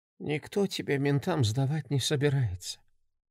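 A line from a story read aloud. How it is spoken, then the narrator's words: Quiet monotone. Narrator (Russian): по-прежнему тихо и монотонно ответила мать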